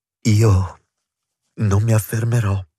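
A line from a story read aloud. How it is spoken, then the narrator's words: Moaning. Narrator (Italian): disse gemendo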